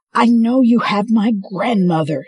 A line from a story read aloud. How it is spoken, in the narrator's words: she yelled